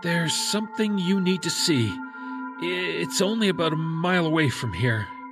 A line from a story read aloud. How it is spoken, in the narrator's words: he said nervously